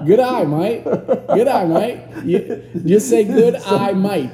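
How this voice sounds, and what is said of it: Put-on Australian accent. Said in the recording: “that's how my daughter said to speak Australian ... if you say it quickly ... sorry if we're making fun of Australians”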